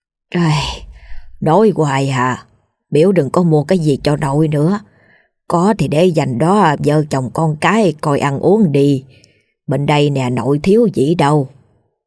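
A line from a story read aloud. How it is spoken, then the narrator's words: Sighing old woman. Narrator (Vietnamese): Bà Hai thở dài nói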